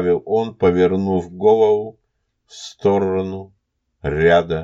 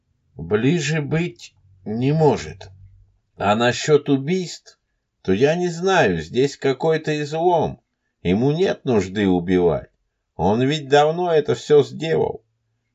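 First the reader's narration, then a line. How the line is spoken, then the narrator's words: Calm. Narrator (Russian): спокойно произнес странник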